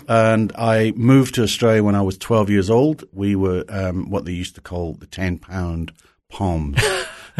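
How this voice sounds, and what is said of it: Slight Scottish accent. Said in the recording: “a little bit of an accent ... Just a wee bit. I was born in Dundee, Scotland”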